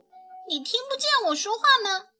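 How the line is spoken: Furious. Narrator (Chinese): 乐亚已经怒不可遏了

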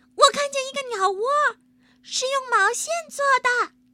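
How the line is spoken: Sudden shout, child. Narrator (Chinese): 一个孩子猛地叫起来

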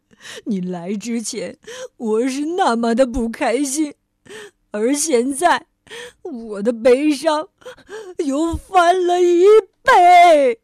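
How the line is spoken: Wailing. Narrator (Chinese): 国王嚎啕大哭

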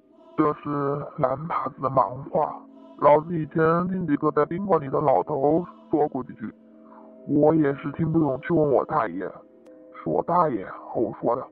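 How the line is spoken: Lowered voice. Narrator (Chinese): 少爷压低声音

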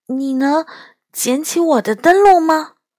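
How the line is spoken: Soft question. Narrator (Chinese): 她轻声地问我

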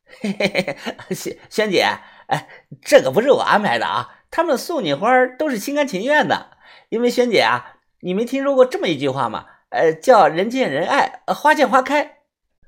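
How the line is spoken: Laughing, teasing. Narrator (Chinese): 虫子……笑着

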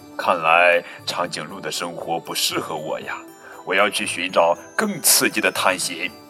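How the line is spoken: Sighing. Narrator (Chinese): 小猪……感叹

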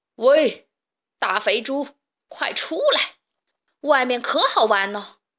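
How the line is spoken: Wolf shouting loudly. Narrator (Chinese): 大灰狼大声的喊着

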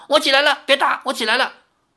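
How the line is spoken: Instinctive startled cry. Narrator (Chinese): 本能反应的李逍遥叫道

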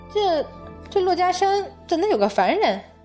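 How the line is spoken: Surprised exclamation. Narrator (Chinese): 惊奇的叫了一声，问道

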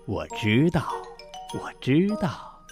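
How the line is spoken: Soft, smiling. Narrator (Chinese): 爸爸微笑着轻声地说

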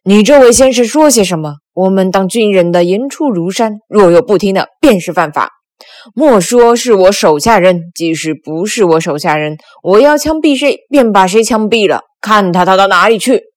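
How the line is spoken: Loud. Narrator (Chinese): 大声道

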